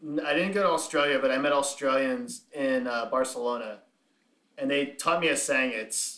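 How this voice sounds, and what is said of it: Usual voice. Nothing is said of it.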